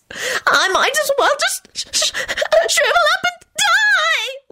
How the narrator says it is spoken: Loretta screeched pitifully

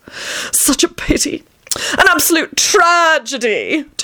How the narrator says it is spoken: Tony moaned

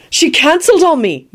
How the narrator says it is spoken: Neville replied happily

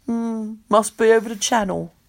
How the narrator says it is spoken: Victor says mournfully

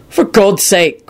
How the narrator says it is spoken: Quentin snapped impatiently

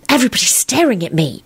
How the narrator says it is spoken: Elizabeth said in a horrified voice

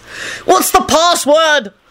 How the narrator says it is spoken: Lupin yelled wildly at Dumbledore

